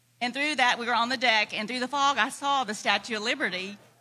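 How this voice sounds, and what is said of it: Southern German accent. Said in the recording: “Is that a southern German accent? ... Yes.”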